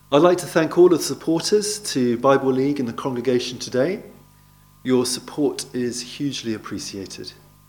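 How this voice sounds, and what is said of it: Non-Australian accent. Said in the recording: “as you can probably tell by my accent, I arrived in Australia fairly recently”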